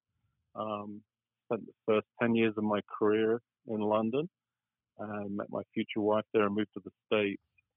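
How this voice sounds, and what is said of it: English accent. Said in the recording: “As you can tell from my accent, I grew up and was educated in England.”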